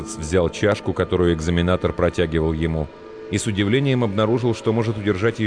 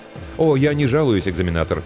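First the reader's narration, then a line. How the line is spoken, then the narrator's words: Quick reply. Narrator (Russian): быстро ответил Ховард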